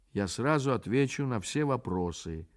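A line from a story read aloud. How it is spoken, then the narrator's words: Calm, thoughtful reply. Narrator (Russian): спокойно отвечал задумавшийся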